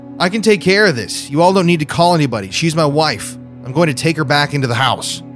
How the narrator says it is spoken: yelled out to the crowd

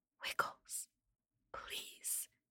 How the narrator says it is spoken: whispered as quietly as I can

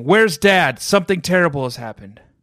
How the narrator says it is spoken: Margot yelling

